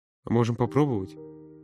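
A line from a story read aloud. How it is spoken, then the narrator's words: Muttering. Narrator (Russian): Пробормотал он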